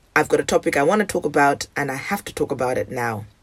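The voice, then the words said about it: Hoarse late-night voice. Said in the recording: “my voice sounds hoarse, it's because it's 3:30 a.m.”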